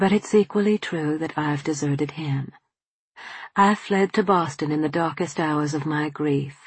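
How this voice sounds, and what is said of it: Usual voice. Nothing is said of it.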